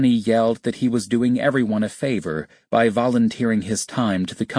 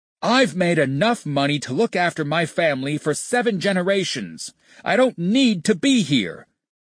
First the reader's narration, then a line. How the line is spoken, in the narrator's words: he screamed in Tony's face